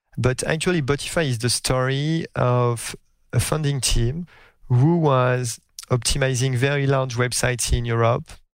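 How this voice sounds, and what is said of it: French accent. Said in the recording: “my French accent, even after a few years in the US”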